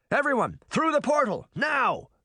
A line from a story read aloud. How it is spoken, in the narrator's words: Henry shouted